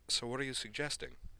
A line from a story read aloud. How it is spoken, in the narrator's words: Utena asked